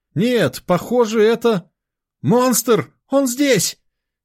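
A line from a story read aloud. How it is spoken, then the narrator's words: Frantic scream. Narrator (Russian): Истошно завопил Дима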